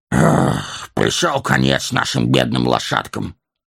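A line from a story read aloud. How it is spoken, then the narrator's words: Sighing. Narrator (Russian): вздохнул Торин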